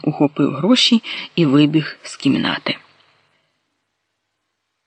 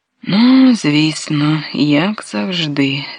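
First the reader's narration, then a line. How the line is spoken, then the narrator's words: Sigh. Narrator (Ukrainian): зітхнула Софія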